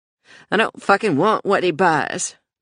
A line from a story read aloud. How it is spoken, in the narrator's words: Joey said in a surly voice